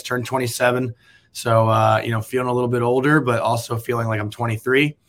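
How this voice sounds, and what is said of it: Worn-out, rough voice. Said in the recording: “as you can tell in my voice, I did do a lot of partying this weekend, so I don't have the best voice right now”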